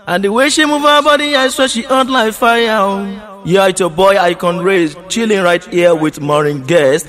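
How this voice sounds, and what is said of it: Nigerian accent. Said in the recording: “there was an accent ... That is straight out of Nigeria, Nigeria”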